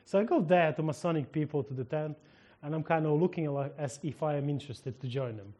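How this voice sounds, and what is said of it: Ukrainian-accented English. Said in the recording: “I'm Ukrainian, and my accent saves me”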